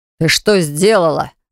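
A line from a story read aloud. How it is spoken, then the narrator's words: Sudden snarl. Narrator (Russian): зарычал с наскока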